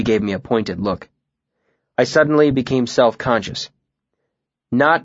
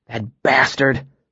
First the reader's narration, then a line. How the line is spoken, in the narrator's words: said hotly